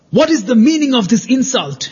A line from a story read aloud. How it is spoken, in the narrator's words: shouted Yoshiko